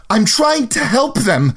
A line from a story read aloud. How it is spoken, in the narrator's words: she screamed back